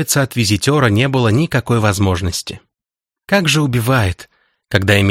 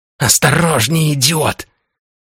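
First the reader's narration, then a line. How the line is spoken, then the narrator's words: Hissing, vampire. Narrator (Russian): прошипела вампирша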